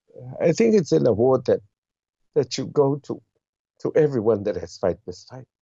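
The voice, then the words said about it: Emotional, voice choked up. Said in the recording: “I'm getting a bit emotional now”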